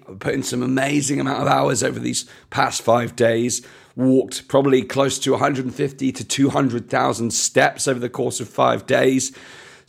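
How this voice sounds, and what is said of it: Slightly hoarse, tired voice. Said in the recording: “As you can tell by my voice, a little bit hoarse today. ... So I'm a little bit tired.”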